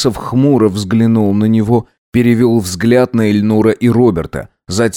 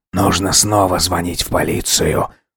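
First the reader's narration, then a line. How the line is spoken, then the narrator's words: Angry mutter. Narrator (Russian): зло пробормотал Алхасов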